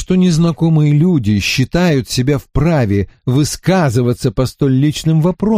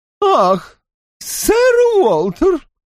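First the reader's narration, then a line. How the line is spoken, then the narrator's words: Exclaiming woman. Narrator (Russian): воскликнула его будущая теща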